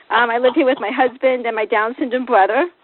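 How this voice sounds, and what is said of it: Boston accent. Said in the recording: “I have a Boston accent I acquired from my parents, which Fairfax County Schools could not get rid of, so I still have it today”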